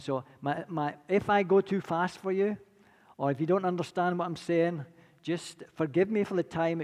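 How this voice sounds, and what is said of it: Scottish accent. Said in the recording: “my accent's a little bit more refined, and that's because I've been to Scotland ... I'll never lose my accent. They say the Scots don't give away much, but definitely not going to give away the accent.”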